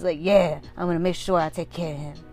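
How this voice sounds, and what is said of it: Put-on old man voice. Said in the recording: “this is my old man voice... why it sounds like Danny Glover... why you sound like Danny Glover right now?”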